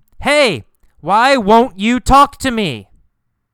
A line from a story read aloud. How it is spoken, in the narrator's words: He yells